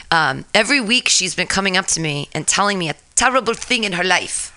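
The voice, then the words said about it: Speaks with a noticeable accent. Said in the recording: “You can tell by my terrible accent”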